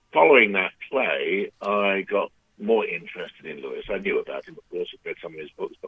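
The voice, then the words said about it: British accent. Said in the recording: “I've got a British accent... I do have a British accent. I've had it for a long time.”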